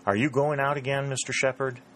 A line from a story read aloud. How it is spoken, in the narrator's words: Dick asked